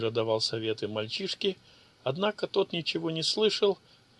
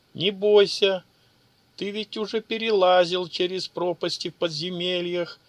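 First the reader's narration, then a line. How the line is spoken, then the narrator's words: Shouted from a ledge. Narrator (Russian): крикнул с уступа Сейджа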